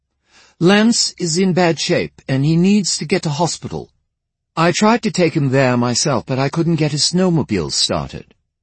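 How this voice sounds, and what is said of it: Clipped British accent. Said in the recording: “said in her clipped British accent.”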